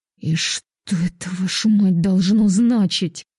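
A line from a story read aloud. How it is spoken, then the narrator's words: Through clenched teeth. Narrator (Russian): процедила сквозь зубы Антонина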